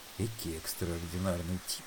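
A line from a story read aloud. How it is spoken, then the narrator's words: Muttered under breath. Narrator (Russian): пробормотал он себе под нос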